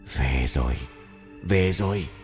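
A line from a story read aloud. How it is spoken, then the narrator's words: Soft hiss. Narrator (Vietnamese): tiếng rít nhẹ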